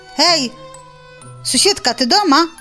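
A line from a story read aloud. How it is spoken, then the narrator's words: Shout. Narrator (Belarusian): крыкнул заяц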